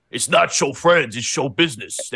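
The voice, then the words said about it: Imitates another person's voice, poorly. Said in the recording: “That's my impression. ... That's horrible impression. ... Horrible.”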